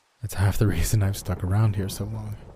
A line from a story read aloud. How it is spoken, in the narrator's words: I laughed quietly